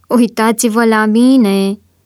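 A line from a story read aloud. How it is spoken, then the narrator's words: Shouted mimicry. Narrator (Romanian): a strigat o voce din mulțime, încercând să-l imite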